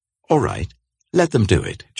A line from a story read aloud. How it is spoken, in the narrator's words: Joab said